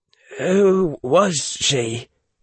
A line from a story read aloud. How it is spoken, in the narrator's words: Harry said, his voice sounding strange in his own ears